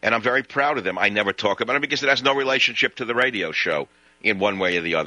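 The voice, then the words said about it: Brooklyn accent, truck-driver style. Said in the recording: “he speaks in a truck driver's accent like he's from Brooklyn”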